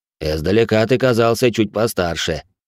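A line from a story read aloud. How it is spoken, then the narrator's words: Snorting. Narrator (Russian): хмыкнул он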